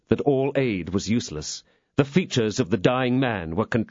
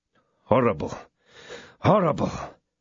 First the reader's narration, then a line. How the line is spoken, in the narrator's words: muttered Athos